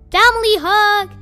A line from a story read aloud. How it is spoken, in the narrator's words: he shouted